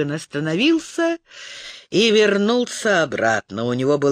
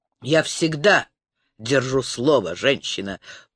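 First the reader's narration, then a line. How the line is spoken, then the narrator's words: Growled. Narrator (Russian): прорычал он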